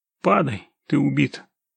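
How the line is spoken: Quiet voice. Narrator (Russian): тихо проговорил Володя

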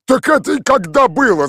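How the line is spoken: Shouting. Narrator (Russian): закричал Михаил Иванович

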